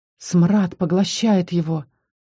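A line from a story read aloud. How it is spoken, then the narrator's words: Barely audible rustling whisper. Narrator (Russian): прошелестело чуть слышно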